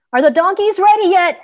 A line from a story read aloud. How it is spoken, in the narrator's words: called out